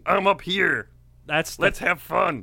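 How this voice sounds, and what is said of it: Imitates another person's voice. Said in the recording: “That's your George Clooney impression. ... It's clearly George Clooney.”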